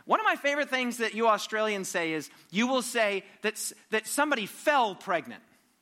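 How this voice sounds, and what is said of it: American accent. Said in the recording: “I'm from America, as you know, probably can detect by my accent.”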